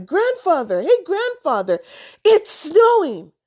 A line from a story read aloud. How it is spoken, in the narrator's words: shouted